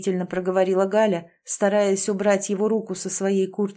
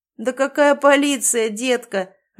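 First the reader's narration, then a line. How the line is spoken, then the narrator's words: Laughing young man. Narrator (Russian): рассмеялся парень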